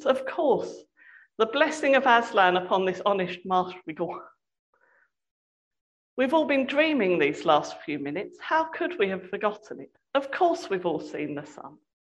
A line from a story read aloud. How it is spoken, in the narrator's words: cried